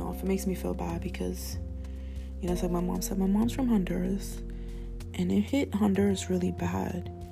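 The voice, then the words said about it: Spanish accent in English. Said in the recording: “I'm Spanish. I say shit weird because of my accent”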